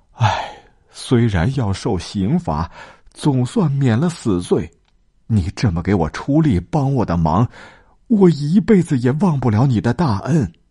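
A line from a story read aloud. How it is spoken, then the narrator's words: Crying. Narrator (Chinese): 孙膑哭着说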